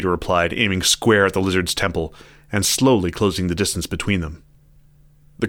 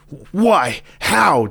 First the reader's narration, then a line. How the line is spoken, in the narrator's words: Jack panted